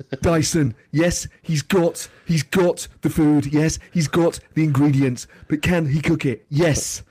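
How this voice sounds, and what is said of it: Imitates another person's voice. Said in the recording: “Ramsay. ... that is an appalling impression. ... I thought it was quite good. I liked it.”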